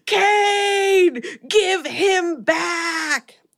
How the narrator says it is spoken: he screams

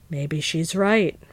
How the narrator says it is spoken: returned Nick gloomily

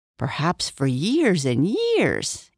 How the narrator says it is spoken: answered Jerry cheerfully

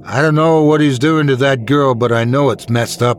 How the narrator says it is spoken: I shouted

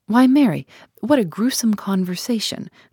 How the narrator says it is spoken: cried Mrs

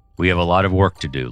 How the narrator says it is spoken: Lewis said

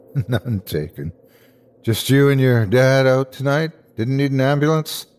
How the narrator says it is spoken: Jake sighed

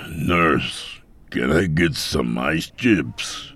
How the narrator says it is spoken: he called out

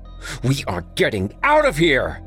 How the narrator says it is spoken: Chadwick shouted

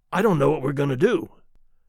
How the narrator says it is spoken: Charlie said in a faint voice

